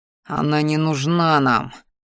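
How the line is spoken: Insistent growl. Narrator (Russian): вновь зарычал я, внушая своему ящеру, пытаясь убедить упрямого

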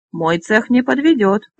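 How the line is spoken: Grumbling. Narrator (Russian): проворчал Фондарелл

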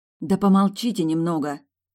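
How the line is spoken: Irritated retort. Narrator (Russian): раздраженно парировала

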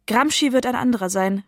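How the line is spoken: Exclaimed. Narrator (German): rief Brevi aus

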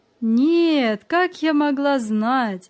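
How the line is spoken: Laughing, old woman. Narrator (Russian): засмеялась бабушка

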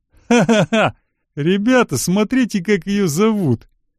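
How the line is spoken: Group bursting into laughter. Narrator (Russian): дружно разразилась хохотом

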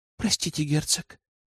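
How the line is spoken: Whisper. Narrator (Russian): прошептала она

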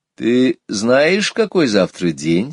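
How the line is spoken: Plain. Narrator (Russian): спросила мама

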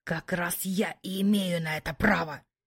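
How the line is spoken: Muffled growling reply. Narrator (Russian): глухо рычал в ответ Кай

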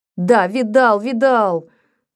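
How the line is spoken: Yelled. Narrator (Russian): завопил он

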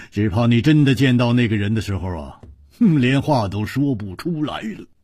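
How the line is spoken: Hearty laughter. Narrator (Chinese): 哈哈地笑着说

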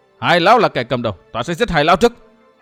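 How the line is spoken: Shout. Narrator (Vietnamese): Trò thanh nữ, chẳng hét

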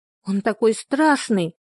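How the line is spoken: Exclaiming. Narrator (Russian): воскликнула Эллен

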